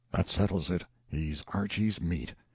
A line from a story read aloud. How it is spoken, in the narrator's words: There was no noisy demonstration, but all about the house one voice after another muttered